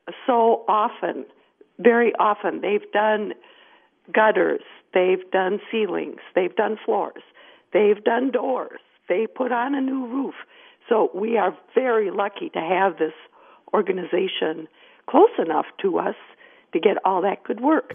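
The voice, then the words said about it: Hoarse voice. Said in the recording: “I'm hoarse.”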